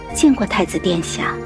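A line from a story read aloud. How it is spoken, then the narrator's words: Soft. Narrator (Chinese): 柔声说道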